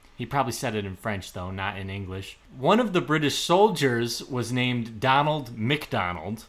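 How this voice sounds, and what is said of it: Usual voice. Nothing is said of it.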